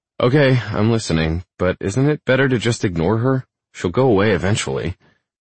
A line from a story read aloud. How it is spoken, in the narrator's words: I tell them with a groan